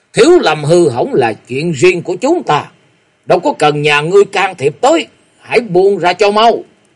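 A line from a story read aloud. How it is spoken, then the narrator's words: Monk's shout. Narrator (Vietnamese): Nguyên Nguyên Đại Sư quát lên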